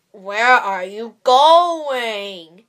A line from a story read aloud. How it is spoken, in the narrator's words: growled the wolf